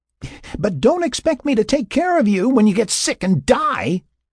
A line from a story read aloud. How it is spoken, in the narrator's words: Sarah yelled after him